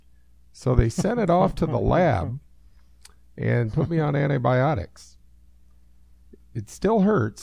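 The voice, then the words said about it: Slightly hoarse voice. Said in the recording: “I'm a little hoarse, as you can hear. Of course, I'm normally a little hoarse”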